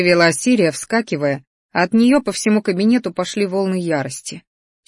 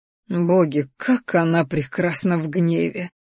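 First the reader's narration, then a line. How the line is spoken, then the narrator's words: Lovestruck sigh. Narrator (Russian): влюбленно вздохнул Рахтар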